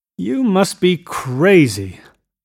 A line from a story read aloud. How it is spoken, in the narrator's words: exclaimed Tom automatically